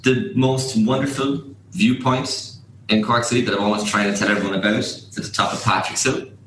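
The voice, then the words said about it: Musical Cork Irish accent. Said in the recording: “It's a difficult accent. It's a different accent. Maybe they're a bit overly musical. The best way to summarise the Cork accent, I think, is we sound a bit like a hummingbird on crack. ... I have toned it down as best I could.”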